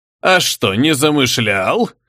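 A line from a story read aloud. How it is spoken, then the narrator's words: More menacing question. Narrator (Russian): Еще более грозно осведомился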